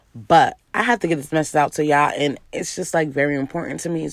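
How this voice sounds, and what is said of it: Hoarse voice. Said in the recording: “As you can kind of still hear, my voice is kind of hoarse still.”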